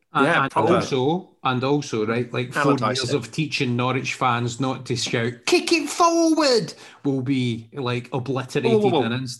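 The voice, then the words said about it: Put-on Norfolk accent. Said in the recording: “Was that your Norfolk accent? ... My impressions have gone down a storm”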